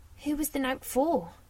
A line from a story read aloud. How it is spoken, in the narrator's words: She sighed